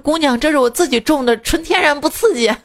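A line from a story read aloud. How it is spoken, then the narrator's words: Old woman smiling. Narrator (Chinese): 老奶奶 笑着 说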